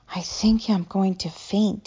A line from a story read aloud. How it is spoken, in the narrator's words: he whispered